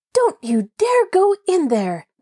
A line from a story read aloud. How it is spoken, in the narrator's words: Nancy cried indignantly